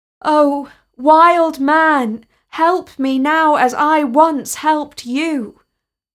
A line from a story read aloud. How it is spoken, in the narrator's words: The boy called out